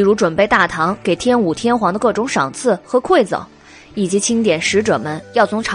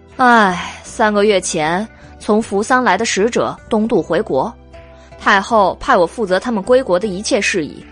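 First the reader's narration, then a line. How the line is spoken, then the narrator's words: Sighing, slow. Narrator (Chinese): 韦燕叹了一口气，缓缓道来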